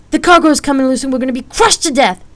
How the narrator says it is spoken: She shouted

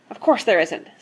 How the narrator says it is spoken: snapped Mr

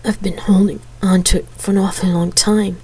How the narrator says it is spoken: he half-choked

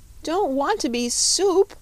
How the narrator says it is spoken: wailed Button-Bright again

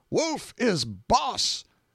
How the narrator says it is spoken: An ironical shout from the right

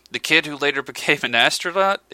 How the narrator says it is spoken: exclaimed McBride with a fond smile

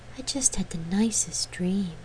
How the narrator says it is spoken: the bard murmured, her voice still husky with sleep

